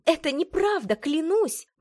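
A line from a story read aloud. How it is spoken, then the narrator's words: Exclaimed. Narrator (Russian): воскликнула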